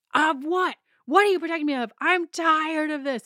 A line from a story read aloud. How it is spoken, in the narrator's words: Michelle is screaming in her face